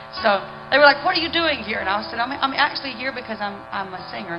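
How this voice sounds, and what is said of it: Southern American accent. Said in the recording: “they were sort of intrigued with the Southern accent thing”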